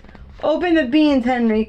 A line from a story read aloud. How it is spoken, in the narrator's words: cried Lars